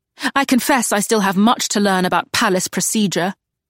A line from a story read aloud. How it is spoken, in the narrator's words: Charlotte snapped